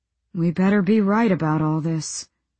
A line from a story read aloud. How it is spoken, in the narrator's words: Wieland said on a sigh